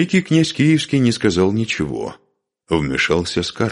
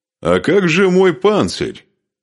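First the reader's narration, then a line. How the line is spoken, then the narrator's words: Mocking question. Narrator (Russian): насмешливо спросил он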